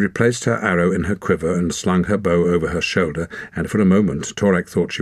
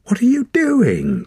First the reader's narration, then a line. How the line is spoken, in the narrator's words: cried Ren